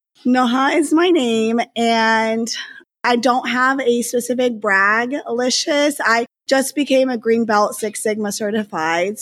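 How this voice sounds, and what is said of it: Raspy voice. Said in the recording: “have this raspy voice, so it's like this sexy”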